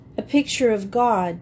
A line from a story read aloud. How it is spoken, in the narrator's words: said Cecily with a sob in her voice